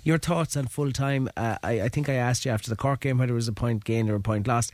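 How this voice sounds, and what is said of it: Creaky voice. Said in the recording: “My voice is a little on the creaky side. I spent most of yesterday afternoon shouting at the referee”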